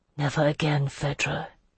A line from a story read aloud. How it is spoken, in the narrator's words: he whispered